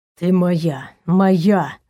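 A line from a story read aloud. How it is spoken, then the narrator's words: Growling. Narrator (Russian): зарычал Наг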